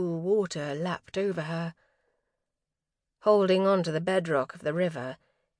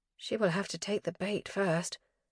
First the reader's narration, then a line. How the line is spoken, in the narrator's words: Kit murmured